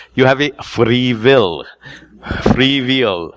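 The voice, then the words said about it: Imitates another person's accent. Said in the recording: “pardon my accent”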